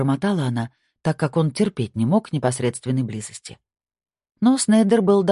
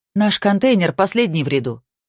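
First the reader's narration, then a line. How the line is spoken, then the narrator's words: Shout from the door. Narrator (Russian): крикнула Кора, все еще сидевшая у двери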